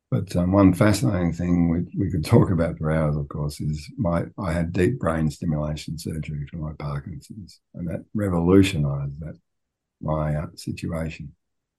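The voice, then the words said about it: Quiet, soft speaking voice. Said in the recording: “As you know, Parkinson's, which is why my voice is quiet”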